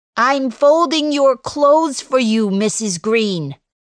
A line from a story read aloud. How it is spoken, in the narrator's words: I say as loudly as I can